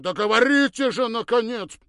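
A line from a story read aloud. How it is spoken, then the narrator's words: Near shout. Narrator (Russian): Почти прокричал он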